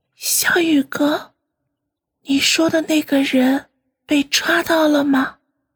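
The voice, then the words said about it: Speaking quietly, softly. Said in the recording (Chinese): “小声的说道”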